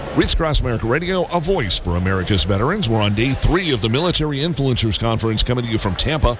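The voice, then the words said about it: Polished radio announcer voice. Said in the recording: “you really have that radio voice. That's very impressive.”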